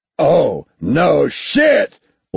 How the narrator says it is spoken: Ort said, the sarcasm loud and clear amid the roars of the organics tearing into the CIC

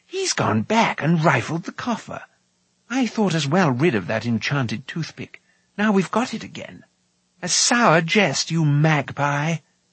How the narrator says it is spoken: he exclaimed

